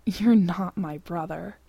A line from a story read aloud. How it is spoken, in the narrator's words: Sam growls